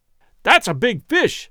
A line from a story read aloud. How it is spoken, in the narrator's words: I exclaimed excitedly